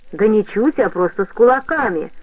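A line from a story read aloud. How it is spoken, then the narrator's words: Deep bass voice. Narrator (Russian): пробасил со своего места Хомер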